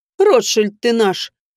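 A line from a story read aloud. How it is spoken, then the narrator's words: Snorting. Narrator (Russian): хмыкнула я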